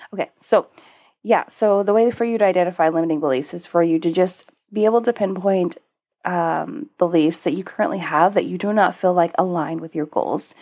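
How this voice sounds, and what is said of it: Sick-sounding voice. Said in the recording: “my voice sounds so different than normal. I am battling sickness”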